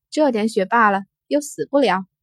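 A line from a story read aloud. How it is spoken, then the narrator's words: Calm, smiling. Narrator (Chinese): 金红淡然一笑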